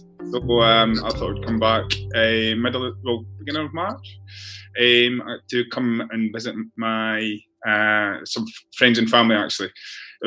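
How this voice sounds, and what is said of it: Scottish accent. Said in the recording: “as you can tell, my accent, I'm originally from Scotland.”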